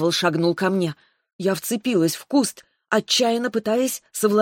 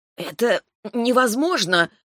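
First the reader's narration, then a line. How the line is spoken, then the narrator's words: Shocked hoarse rasp. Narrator (Russian): потрясенно прохрипела я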